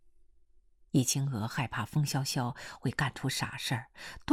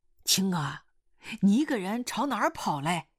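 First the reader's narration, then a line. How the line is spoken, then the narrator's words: Calling out. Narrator (Chinese): 狗老师喊他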